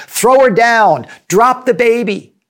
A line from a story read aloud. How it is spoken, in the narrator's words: Commuters shouting